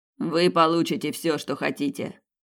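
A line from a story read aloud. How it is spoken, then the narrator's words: Snort. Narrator (Russian): фыркнул Ван Нистельрой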